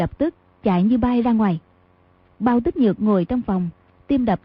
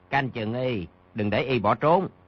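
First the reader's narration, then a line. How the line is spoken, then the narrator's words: Lowered voice. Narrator (Vietnamese): hạ giọng, nói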